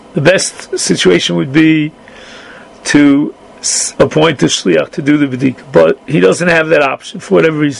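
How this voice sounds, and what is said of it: Hoarse voice. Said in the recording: “sorry about my voice, it got a little bit hoarse.”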